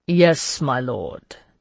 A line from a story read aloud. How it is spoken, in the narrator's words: De Launay said dryly